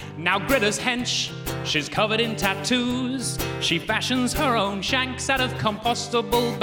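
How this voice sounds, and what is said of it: Usual voice. Nothing is said of it.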